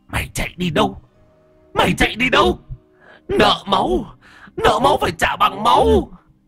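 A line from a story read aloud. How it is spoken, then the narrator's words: Furious hissing old woman. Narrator (Vietnamese): Bà ngoại rít lên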